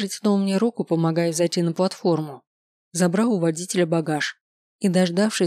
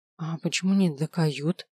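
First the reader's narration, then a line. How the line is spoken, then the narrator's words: Nervous whisper. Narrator (Russian): нервно шепнул я Делагарде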